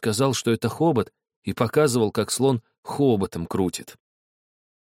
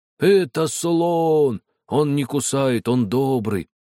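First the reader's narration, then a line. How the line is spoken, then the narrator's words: Deep thick voice. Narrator (Russian): я и сказал толстым голосом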